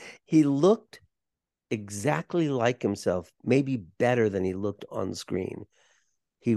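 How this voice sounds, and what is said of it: Usual voice. Nothing is said of it.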